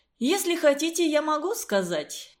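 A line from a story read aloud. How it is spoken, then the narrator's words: Cheerful. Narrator (Russian): весело предложил он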